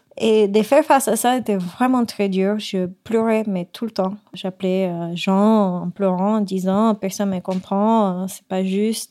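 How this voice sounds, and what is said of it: Non-native foreign accent in French. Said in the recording (French): “J'arrive à ISCOM étant la seule étrangère ... j'arrivais pas à m'exprimer à la même hauteur que les autres ... j'ai un accent”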